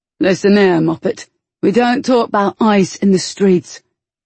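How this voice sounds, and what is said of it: Rough, deep, regionally accented character voice. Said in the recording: “his voice rough from disuse and deep with the accent of their youth”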